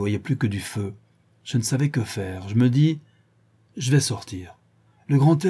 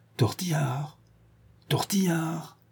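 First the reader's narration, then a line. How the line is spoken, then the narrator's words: Whispered low. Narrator (French): qu'elle dit tout bas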